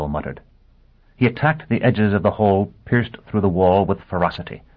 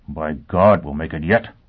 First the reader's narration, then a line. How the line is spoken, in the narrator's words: Foyle mumbled